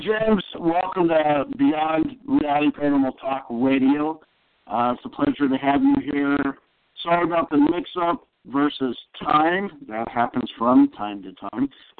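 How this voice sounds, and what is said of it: Hoarse, fading voice. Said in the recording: “I'm losing my voice ... because I was laughing so damn hard earlier”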